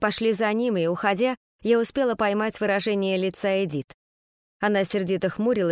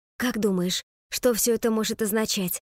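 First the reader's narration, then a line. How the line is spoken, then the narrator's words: Whispered question. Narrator (Russian): шепотом спросила меня Скарлетт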